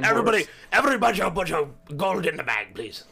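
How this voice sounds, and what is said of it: Odd put-on robber accent. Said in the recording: “That wasn't like a cowboy accent. I don't know what that was”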